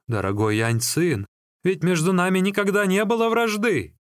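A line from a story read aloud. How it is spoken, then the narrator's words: Exclamation. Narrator (Russian): Лигу воскликнул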